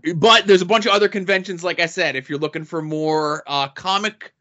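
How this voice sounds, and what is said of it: Usual voice. Nothing is said of it.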